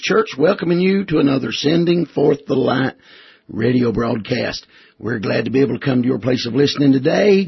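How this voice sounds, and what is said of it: Strained, worn-out voice. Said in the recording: “you can probably tell by my voice that my voice has been greatly strained... I got a little vocal, amen, about stripped my throat out”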